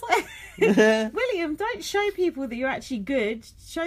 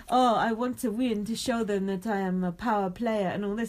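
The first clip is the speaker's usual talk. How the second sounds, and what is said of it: Put-on French accent. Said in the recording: “I like your French accent. ... That's good, wasn't it? ... Sort of Silas like, Lumiere.”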